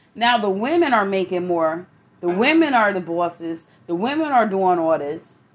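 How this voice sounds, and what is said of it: Thick New York accent. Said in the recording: “my New York accent got thick”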